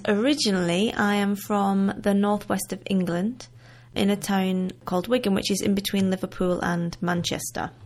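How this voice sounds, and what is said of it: Slight northern English accent. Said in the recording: “I am British, as you can hear ... I do still have a little bit of a northern accent”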